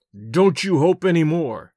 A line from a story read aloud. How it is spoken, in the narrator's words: growled